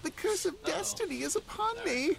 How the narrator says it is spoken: added in an excited voice

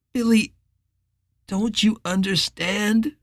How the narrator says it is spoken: Richard said, and he could hear the pleading in his voice

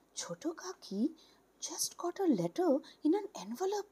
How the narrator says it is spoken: The eldest sister-in-law's daughter, who had just got into the 9th standard, joined the exchange of glances, whispering

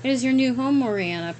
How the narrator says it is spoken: Predex said in a sinister laugh

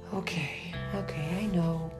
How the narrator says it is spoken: sighed Madeline

